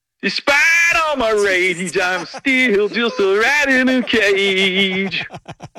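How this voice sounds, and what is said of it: Imitates another person's voice. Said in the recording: “your best Billy Corgan impression ... Perfect. Excellent.”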